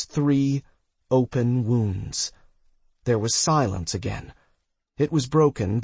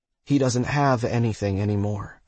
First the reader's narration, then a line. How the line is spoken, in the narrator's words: I said quickly